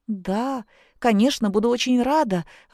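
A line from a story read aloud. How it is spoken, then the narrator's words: Exclamation. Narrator (Russian): воскликнула Зина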